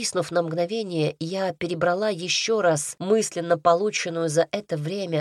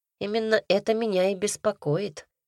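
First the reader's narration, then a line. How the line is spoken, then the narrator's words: Mumbling. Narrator (Russian): Пробурчала я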